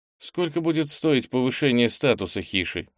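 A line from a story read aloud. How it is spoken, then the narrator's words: Plain. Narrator (Russian): спросил Кенни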